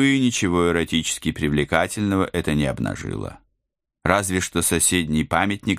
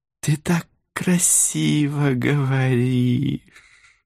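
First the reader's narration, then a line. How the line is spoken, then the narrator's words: Happy sigh, widow. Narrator (Russian): Счастливо вздохнула вдова в белом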